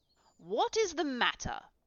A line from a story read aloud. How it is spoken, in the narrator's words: cried